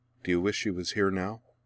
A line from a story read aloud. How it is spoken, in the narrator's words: asked quietly